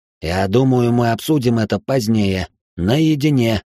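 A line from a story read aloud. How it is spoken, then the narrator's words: Grim. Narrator (Russian): мрачно сообщил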